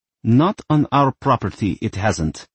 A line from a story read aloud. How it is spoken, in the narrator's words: snapped Mother